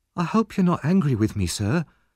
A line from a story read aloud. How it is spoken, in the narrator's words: said Oliver anxiously